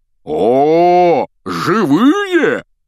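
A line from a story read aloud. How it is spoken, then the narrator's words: Exclamation. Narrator (Russian): воскликнул сэр Патрик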